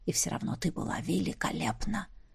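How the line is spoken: Whisper in ear. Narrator (Russian): шепнул мне на ухо Ронал

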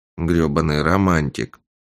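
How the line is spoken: Grumbling. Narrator (Russian): проворчал Рагни

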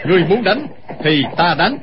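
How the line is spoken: Sudden shout in unison. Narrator (Vietnamese): đột nhiên không hẹn mà cùng quát lên

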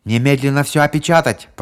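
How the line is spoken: Shouted by familiar voice. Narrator (Russian): прокричал голос, знакомый обоим полицейским

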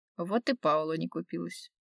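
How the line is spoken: Smirking grunt. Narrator (Russian): хмыкнул Рафаэль

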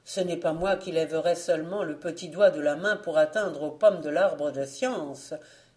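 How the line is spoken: Quick exclamation by prince. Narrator (French): s'écria bien vite le prince

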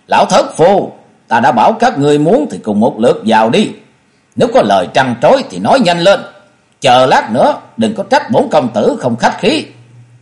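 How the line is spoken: Angry shout. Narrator (Vietnamese): Cốc Thế Biểu tức giận la lên

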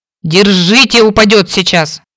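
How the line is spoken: Growling. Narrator (Russian): рычал Кейн

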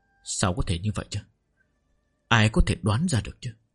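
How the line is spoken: Muttering disbelief. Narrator (Vietnamese): Giang Bá Thanh lầm bầm chửi rủa, khó tin nói

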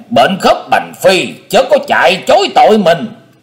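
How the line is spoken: Roaring. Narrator (Vietnamese): Tình Tiên Kiếm Khách gầm vang

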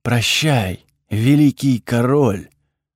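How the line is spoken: Breathy farewell. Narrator (Russian): выдохнула Эфра

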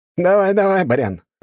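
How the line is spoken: Short laugh. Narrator (Russian): хохотнул второй

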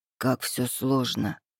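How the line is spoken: Muttered. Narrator (Russian): пробормотал он

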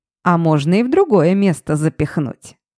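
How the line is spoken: Chuckling old man. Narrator (Russian): хохотнул дед

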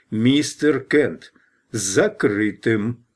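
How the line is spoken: Loud. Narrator (Russian): Гроссвенф громко произнес

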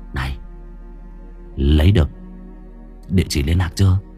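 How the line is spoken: Whisper in ear. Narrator (Vietnamese): nó thì thầm vào vai tai tôi

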